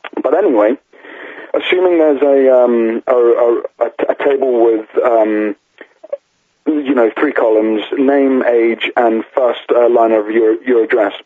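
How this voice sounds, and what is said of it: Hoarse, partly lost voice. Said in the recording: “I'm losing my voice here ... shouting has caused me to lose half my voice”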